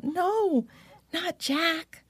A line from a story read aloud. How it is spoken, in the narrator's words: Lisa Ann cried out